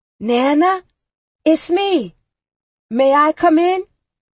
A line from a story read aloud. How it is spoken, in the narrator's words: His voice was loud but ever so gentle as he called out to her